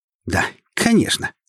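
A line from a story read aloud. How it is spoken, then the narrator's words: Snort. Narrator (Russian): хмыкнула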